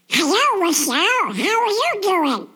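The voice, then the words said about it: Donald Duck cartoon voice. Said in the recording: “do Donald Duck ... That's my impersonation.”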